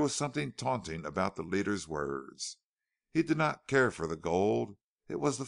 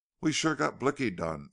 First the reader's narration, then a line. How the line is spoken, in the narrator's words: exclaimed Kells